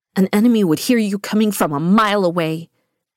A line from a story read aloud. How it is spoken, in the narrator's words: she spat angrily